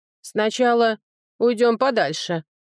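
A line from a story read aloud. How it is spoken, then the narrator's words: Puffing deep bass. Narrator (Russian): пыхтя пробасил над ухом Брега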